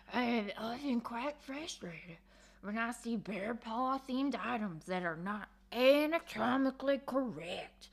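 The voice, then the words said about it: Put-on bear character voice. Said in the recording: “Should I do a bear voice? ... How do I do a bear voice?”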